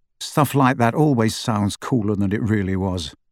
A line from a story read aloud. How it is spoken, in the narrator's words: said Harry